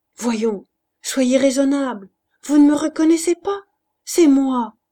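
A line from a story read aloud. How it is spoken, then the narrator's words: Pleading. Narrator (French): suppliant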